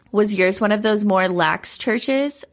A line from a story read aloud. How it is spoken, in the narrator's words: She laughed